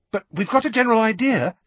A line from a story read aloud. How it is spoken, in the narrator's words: she added hastily